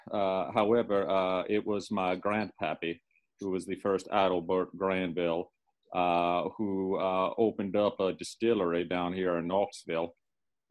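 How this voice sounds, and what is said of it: Hard-to-place regional accent. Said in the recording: “I couldn't quite place your accent”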